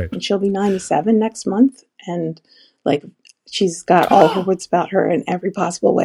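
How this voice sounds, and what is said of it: Scratchy voice. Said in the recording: “my voice is scratchy. Allergies”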